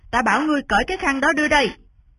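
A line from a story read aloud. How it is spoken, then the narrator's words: Loud shout. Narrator (Vietnamese): Trần Đạt Hải quát lớn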